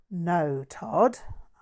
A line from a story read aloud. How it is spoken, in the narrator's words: sighed